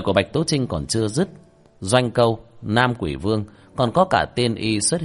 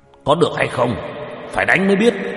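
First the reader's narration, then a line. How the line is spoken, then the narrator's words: Shaken, shouting. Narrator (Vietnamese): Hậu Khanh cảm giác trong lòng bị đả kích kịch liệt, quát lên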